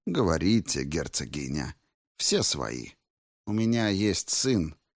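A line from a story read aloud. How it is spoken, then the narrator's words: Through gritted teeth. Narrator (Russian): процедила Воронова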